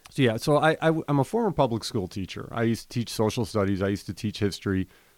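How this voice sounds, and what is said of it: Chicago accent, hard flat A. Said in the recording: “I'm originally from Chicago, Illinois. You'll probably hear that in my voice sometimes when I'm speaking. If I get riffing, you might hear a real high hard A coming out of me.”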